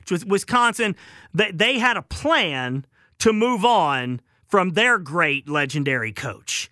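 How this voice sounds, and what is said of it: Southern American accent. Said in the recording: “Rice, because that's my southern accent.”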